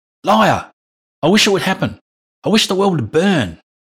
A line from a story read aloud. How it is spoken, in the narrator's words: Andrew yelled